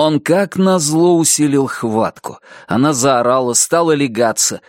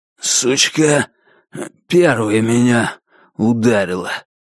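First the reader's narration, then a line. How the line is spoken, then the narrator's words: Mumbling. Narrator (Russian): промямлил он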